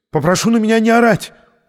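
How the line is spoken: Shriek. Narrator (Russian): взвизгнул Бромберг

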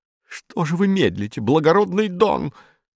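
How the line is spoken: Shrill breaking shout. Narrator (Russian): визгливым срывающимся голосом закричала Дона Акана

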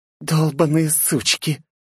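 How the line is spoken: Despairing hiss, girl. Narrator (Russian): зашипела девушка от безысходности

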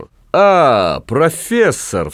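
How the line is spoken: Exaggeratedly joyful exclamation. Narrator (Russian): вскричал он преувеличенно радостно

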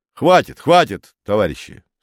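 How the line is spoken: Stern. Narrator (Russian): строго сказал он

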